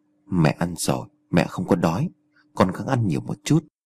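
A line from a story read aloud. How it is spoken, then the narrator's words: Tearful, quiet mother. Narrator (Vietnamese): Người mẹ khẽ lọc nước mắt rồi cúi đầu nói một câu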